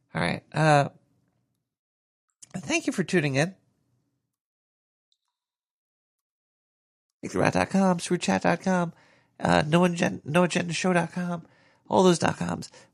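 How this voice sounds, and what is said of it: Strained, failing voice. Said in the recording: “I'm dying over here. Guys, I'm dying. My voice is going bye-bye.”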